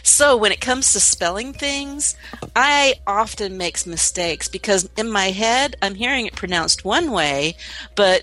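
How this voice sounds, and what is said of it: Twangy Southern US accent. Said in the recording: “you're getting a little twangy. I could hear it. I could hear it. ... my southern accent”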